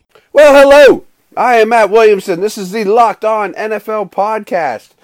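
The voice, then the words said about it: Voice strained from a cold. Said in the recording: “you can probably hear it in my voice. Getting over a bad cold. I was having a hard time talking.”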